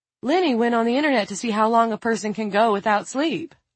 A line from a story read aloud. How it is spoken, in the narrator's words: Lila said brightly